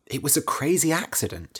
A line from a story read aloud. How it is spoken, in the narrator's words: he said